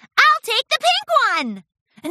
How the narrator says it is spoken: Pinkie Pie shouted

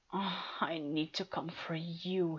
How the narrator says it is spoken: he begged

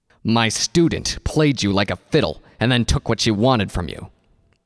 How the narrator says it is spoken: he said harshly

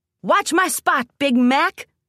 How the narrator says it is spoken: Rainbow shouted

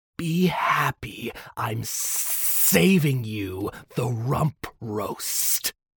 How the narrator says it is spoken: Soren hissed

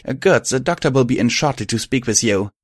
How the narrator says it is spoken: she replied brightly

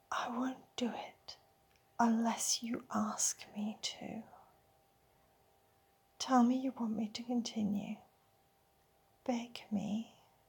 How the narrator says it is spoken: putting his face right next to mine, he whispers

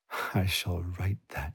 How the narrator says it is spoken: she giggled

